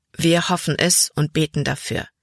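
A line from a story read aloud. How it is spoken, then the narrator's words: Plain. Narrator (German): sagte Papa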